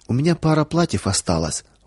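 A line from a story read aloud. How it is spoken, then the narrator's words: Timid offer. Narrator (Russian): робко предложила Вера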